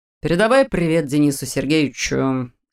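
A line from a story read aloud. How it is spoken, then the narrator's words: Mock-stern grumble. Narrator (Russian): деланно хмурясь проворчал Роман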